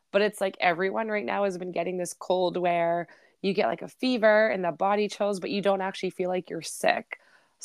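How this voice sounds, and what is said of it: Raspy voice. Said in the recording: “raspy my voice is”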